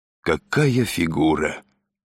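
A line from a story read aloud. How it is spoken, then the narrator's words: Admiring hiss. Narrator (Russian): с восхищением прошипел Изя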